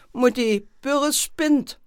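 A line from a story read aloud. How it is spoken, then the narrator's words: Called out. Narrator (German): Sabine rief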